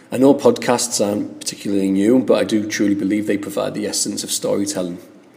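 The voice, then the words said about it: Northeast English accent. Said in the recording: “I'm from the northeast of England, a tiny place called Stockton-on-Tees. I'm not Scottish ... and I'm not a Geordie. Think of Game of Thrones area and you'll understand my accent”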